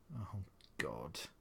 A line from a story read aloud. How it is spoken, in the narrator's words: he mumbled